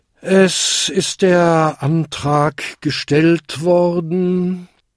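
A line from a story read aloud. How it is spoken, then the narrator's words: Tired. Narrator (German): sagte der müde Versammlungsleiter schließlich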